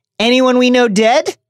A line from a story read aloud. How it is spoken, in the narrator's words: asked Ron in a determinedly casual voice